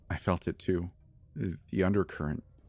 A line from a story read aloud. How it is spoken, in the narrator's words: said quietly